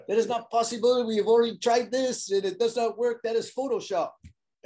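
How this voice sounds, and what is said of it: Put-on French accent. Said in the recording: “I'm trying to give me a French accent”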